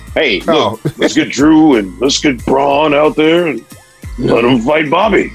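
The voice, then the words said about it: Imitates another person's voice. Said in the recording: “That's a great Vince impression right there.”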